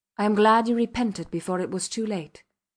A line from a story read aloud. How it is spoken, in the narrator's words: said in a dull tone